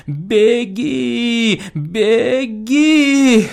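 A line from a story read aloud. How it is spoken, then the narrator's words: Strained, faltering babble. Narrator (Russian): С усилием, словно косноязычный, залепетал замиравший охотник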